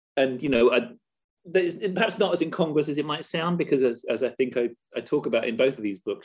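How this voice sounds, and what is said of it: British accent. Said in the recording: “As you may tell from my accent, I'm actually based in the UK.”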